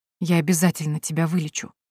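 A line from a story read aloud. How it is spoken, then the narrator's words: Whispered. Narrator (Russian): прошептал я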